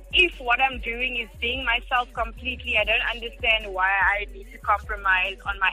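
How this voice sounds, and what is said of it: South African Cape Flats accent. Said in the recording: “doesn't try to sound American ... sound like a young woman from the mixed race, mixed language Cape Flats”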